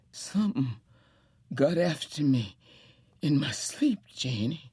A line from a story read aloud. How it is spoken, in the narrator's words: all but cried